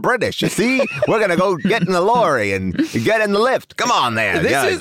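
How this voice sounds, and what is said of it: Put-on British / mid-Atlantic accent. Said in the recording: “maybe like a 1940s accent and a British accent were close enough ... A 1940s American accent? ... a mid-Atlantic?”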